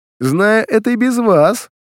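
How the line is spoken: Laughing mutter. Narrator (Russian): смеясь пробормотал Баглей

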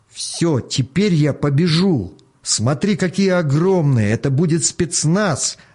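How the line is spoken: Boy's joyful yell. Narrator (Russian): радостно завопил мальчуган

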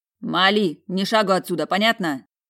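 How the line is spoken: Shouted. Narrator (Russian): выкрикнул куратор

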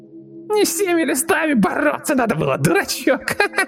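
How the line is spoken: Nasty giggling inner voice. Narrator (Russian): Хихикнул мерзейший голосок в самой его голове

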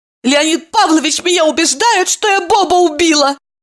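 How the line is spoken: Exclaimed. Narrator (Russian): воскликнула Ева и со слезами взмолилась

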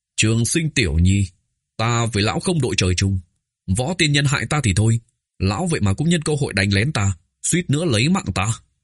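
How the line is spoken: Erupting anger. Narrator (Vietnamese): núi lửa trên vai Ôn Kiệu liền đột nhiên phun trào, giận dữ nói

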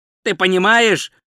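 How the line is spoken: Shouted. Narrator (Russian): крикнул Ринсвинд

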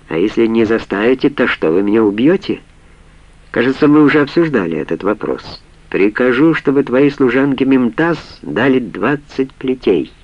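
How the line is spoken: Calm. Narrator (Russian): спокойно договорил Халид

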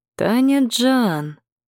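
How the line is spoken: Sly voice. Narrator (Russian): хитрым голосом заговорил Гарик

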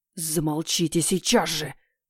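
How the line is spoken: Hissing. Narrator (Russian): прошипел Кизарий

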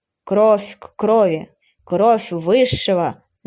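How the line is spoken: Sepulchral voice. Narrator (Russian): могильным голосом начал служитель в капюшоне

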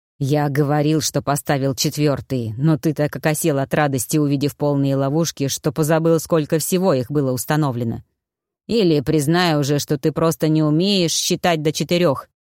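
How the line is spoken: Hoarse low grumble. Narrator (Russian): проворчал в ответ сиплый низкий голос

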